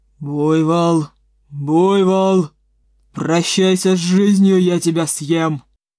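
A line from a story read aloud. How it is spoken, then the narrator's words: Wolf's growl. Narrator (Russian): прорычал волк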